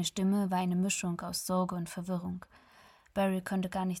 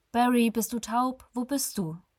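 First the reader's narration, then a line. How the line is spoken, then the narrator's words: Sharp voice. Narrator (German): Seine Stimme wurde scharf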